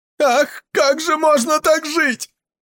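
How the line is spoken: Sobbing woman crying out. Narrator (Russian): вскрикнула, рыдая, какая-то женщина

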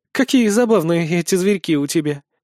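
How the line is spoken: Blurted, then laughing. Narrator (Russian): выдала Сехмет и рассмеялась

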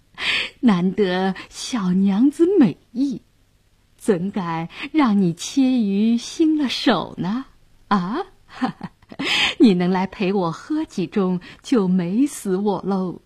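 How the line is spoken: Lecherous laughing. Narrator (Chinese): 杨衙内色眯眯地笑道

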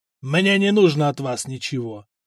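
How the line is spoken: Spat angrily. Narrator (Russian): зло выплюнул Каган

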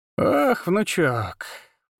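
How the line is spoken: Mocking drawl. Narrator (Russian): протянула она с характерной издевкой в голосе

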